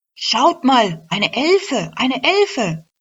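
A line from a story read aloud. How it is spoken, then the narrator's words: Called out. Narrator (German): rief zu ihren Kolleginnen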